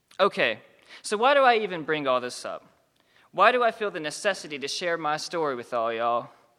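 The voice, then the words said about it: Southern American accent. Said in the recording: “my southern accent”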